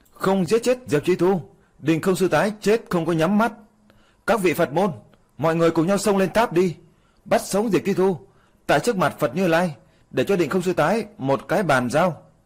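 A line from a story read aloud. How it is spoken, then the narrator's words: Loud inciting shout. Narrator (Vietnamese): Cửu Hoa Sơn Hồng Bạch La Sát cũng trong đám người, càng thêm trong ngòi thổi gió hét lớn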